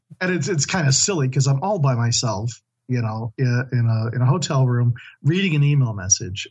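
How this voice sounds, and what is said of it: Strained, worn-out voice. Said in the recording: “My voice is a bit shot”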